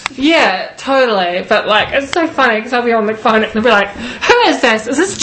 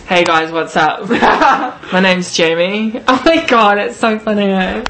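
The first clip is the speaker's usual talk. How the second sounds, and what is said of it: Deliberately deep voice. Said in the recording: “make a deep voice?”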